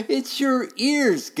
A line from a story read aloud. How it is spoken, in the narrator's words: giggled Buttermilk